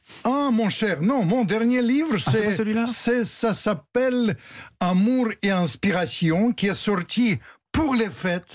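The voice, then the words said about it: Noticeable foreign accent in French. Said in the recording (French): “j'ai pas perdu mon accent ... Eh non, vous ne l'avez pas perdu.”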